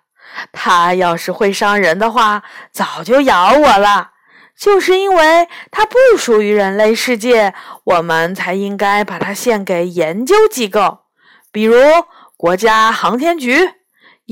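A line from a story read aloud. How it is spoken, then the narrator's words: Grinning. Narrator (Chinese): 杨永乐咧嘴笑了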